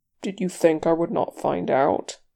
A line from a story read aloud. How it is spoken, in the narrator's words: he said, in a low, tight voice